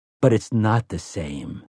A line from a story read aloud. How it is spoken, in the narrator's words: Eddie said grimly